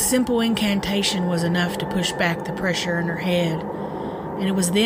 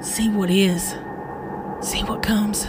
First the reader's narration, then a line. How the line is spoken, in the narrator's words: whispered